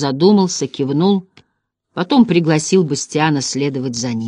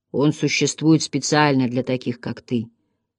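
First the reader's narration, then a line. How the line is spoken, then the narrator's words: Quiet. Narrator (Russian): тихо сказал Йор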